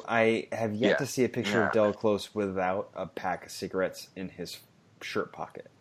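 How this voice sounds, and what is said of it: Usual voice. Nothing is said of it.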